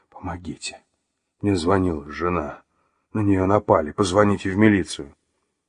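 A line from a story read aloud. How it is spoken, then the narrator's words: Weak hoarse wheeze. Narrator (Russian): Василий слабо прохрипел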